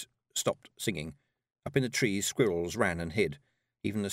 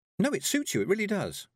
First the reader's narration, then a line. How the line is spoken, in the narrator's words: said Tiffany cheerfully